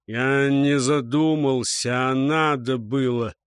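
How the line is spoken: Muffled voice. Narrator (Russian): глухо прозвучал его голос

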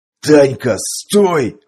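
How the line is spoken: Roaring shout. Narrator (Russian): взревел Степа

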